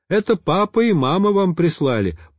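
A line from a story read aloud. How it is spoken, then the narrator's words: Shouted in chorus. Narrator (Russian): прокричали они хором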